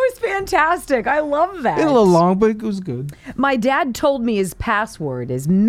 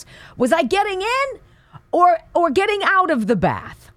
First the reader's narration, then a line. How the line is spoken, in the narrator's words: yells back